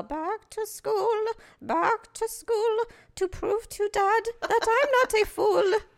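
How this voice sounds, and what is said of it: Imitates a movie character's voice. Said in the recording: “Maybe I can do impersonations... a really good Adam Sandler, actually Billy Madison impersonation”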